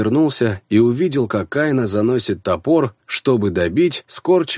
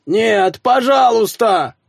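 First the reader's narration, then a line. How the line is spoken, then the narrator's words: Desperate scream. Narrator (Russian): закричал он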